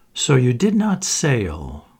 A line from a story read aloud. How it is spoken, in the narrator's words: she had said